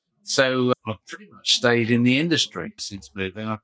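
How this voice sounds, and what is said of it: English accent. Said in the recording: “you've still got an English accent”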